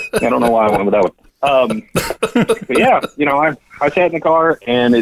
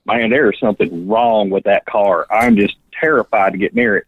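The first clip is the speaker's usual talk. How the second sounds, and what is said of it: Put-on strong Tennessee accent. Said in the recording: “That strong Tennessean accent”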